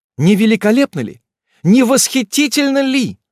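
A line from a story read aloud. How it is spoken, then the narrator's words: Exclaiming. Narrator (Russian): воскликнул он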